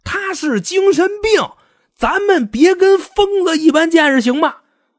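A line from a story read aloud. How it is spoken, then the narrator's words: Heart-rending shout. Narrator (Chinese): 辩方的律师呢，在法庭上基本上就是一句话，撕心裂肺的对着法官跟陪审团喊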